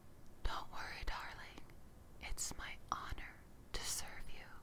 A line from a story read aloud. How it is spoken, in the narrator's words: smirked and whispered